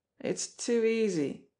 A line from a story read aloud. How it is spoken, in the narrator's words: scoffed Smarlinghue